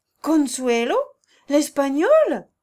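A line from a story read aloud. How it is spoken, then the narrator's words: Young voices, surprised unison. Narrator (French): s'écrièrent tout d'une voix les jeunes choristes, d'abord frappés de surprise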